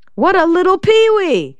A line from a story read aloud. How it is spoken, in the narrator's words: she shouted